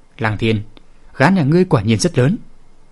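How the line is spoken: Calm, smiling. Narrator (Vietnamese): ung dung tự tái mỉm cười nói

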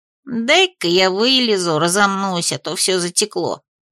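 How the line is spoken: Muttering. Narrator (Russian): пробормотал Хомка

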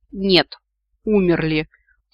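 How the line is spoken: Muffled breathless snort. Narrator (Russian): фыркнула я, стараясь не задохнуться под массой брезента

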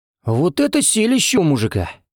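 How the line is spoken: Policeman exclaiming. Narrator (Russian): воскликнул один из полицейских

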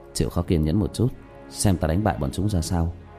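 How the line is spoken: Soft-voiced. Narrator (Vietnamese): khẽ giọng với Diệp Tiểu Manh

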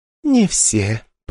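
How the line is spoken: Purring. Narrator (Russian): промурлыкала девушка

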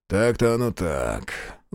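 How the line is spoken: Sighing. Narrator (Russian): вздохнул Трофим

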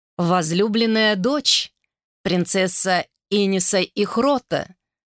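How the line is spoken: Resonant, ringing voice. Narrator (Russian): звучным голосом произнесла

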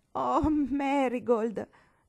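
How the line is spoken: Horrified mother exclaiming. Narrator (Italian): esclamò la mamma inorridita

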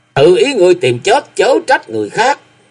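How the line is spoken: Loud bellow. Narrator (Vietnamese): tổng quản mật sứ các lời quát lớn

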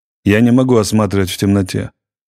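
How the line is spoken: Irritated. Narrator (Russian): раздраженно сказал доктор

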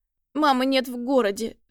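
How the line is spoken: Sobbing. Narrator (Russian): всхлипывает опять

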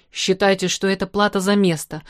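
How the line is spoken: Muttered through teeth. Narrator (Russian): процедил Ираст Петрович

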